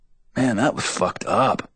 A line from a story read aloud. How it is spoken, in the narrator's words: says Dillon lazily